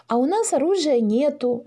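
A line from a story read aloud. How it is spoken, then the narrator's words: Joyful, relieved. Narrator (Russian): радостно сообщила Маша, вовсе не желавшая охотиться на драконов, даже понарошку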